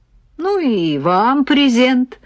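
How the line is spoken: Laughing. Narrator (Russian): рассмеялся Володя

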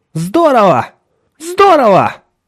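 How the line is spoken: Shout. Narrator (Russian): выкрикнула Николь

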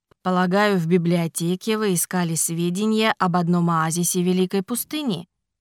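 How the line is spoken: Calm remark. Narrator (Russian): Спокойно заметил он

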